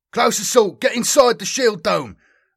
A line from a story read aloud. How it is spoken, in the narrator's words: the sergeant spat over the vox